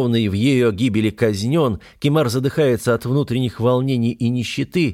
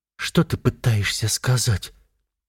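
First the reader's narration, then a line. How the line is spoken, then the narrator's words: Cracked frightened question. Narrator (Russian): натреснутым голосом испуганно спрашивает Эрика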